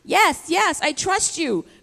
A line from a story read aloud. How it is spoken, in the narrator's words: cried the man